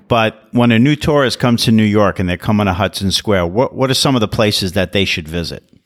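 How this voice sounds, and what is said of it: Local New York accent. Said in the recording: “As a new tourist in New York, which of course I'm not, I mean, you can tell by my accent”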